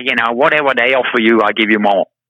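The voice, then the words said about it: Impression of another man's voice. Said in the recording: “I love your Larry impression, by the way. It's very good.”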